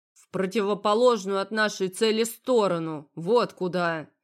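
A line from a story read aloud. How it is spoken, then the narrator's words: Grumbling. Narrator (Russian): Проворчал он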